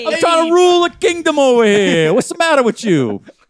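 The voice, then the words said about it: Put-on Italian accent. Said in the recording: “Italian accents”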